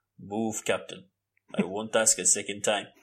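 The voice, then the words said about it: Imitates a film character's voice. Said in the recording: “I can only do the Black Panther”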